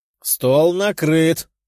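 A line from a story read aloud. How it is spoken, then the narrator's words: Tigress shouting. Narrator (Russian): крикнула тигрица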